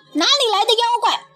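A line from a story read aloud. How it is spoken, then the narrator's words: Shouting. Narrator (Chinese): 哪吒 喊道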